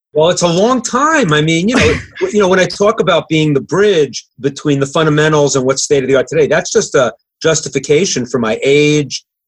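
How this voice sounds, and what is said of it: New York / New Jersey accent. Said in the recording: “I love your accent. ... New York, yeah. ... It's New Jersey.”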